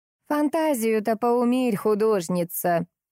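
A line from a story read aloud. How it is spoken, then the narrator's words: Mocking, melodious old woman. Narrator (Russian): насмешливо произнесла старушка неожиданно красивым мелодичным голосом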